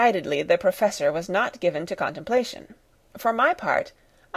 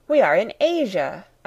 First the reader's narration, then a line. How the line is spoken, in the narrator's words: I cried